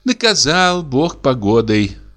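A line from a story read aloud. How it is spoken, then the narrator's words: Sighing. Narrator (Russian): вздохнула дичиха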